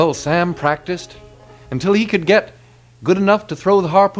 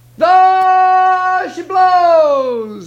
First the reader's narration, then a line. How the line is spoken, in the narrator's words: he hollered